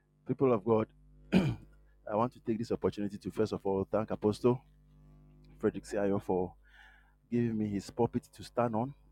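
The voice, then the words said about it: Hoarse, low voice. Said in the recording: “your voice is down ... my voice is down. I'm a bit under the weather, so if you hear that my voice is hoarse ... I have some small cold”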